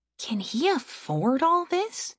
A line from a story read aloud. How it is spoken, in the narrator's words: Aaron whispered to Celis